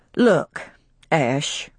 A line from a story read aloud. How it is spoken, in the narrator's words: said Will slowly